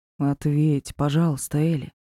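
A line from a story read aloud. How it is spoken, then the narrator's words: Tender voice. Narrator (Russian): добавил нежным голосом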